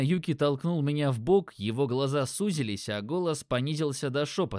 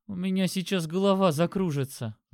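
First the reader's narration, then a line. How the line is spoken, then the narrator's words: Moaning. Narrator (Russian): застонала Леся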